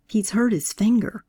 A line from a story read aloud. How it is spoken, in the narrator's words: I whispered to Joanne